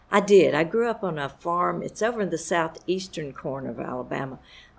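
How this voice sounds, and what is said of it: Lower Alabama Southern accent. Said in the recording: “I am from Lower Alabama, as you can probably tell by my accent ... why is my accent so different from the South Carolina accents?”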